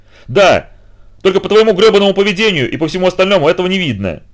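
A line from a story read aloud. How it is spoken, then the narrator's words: Full-throated yell. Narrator (Russian): заорал Роб во всю глотку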